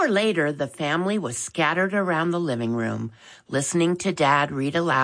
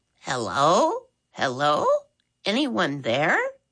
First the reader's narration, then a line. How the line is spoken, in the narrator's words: a voice loudly squeaked